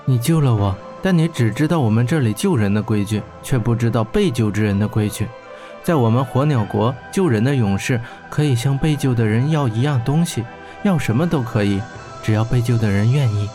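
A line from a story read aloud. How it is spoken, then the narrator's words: Gentle, tender. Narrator (Chinese): 金雪温柔地说道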